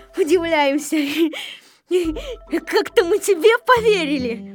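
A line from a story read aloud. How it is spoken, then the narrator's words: Mocking laughter, group. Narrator (Russian): Все смеялись над Незнайкой и говорили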